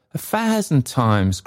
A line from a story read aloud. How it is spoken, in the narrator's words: cried Trotty